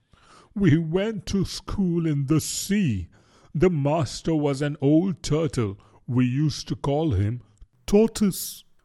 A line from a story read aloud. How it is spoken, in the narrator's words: the Mock Turtle went on at last, more calmly, though still sobbing a little now and then